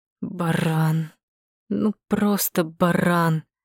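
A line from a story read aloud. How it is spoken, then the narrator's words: Muttering. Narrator (Russian): Бормотал Соколов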